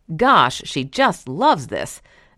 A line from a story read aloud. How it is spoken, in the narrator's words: the owner says, or shouting